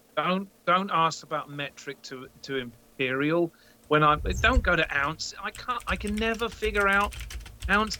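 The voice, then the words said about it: British accent. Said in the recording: “I'm from the UK ... I don't know if you noticed by the accent, but I'm not from around here”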